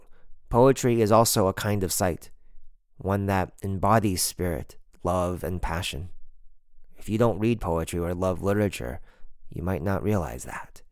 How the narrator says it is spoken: she said

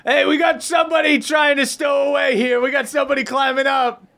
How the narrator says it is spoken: yells to the boat

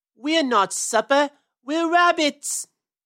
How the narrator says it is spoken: yelled Peter

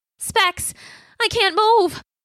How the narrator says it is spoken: his voice panicky

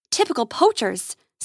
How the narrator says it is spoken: says Grace with a snarl

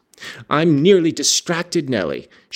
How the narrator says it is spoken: she exclaimed

